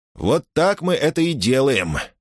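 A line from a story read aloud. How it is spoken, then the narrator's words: Hoarse wheeze. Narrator (Russian): просипел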